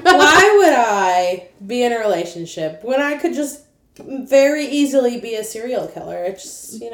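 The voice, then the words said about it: Sarcastic tone of voice. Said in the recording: “being sarcastic ... the sarcasm in my voice”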